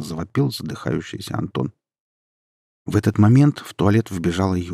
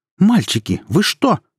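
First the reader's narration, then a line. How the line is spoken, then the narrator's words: Sharp cry. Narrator (Russian): вскрикнула она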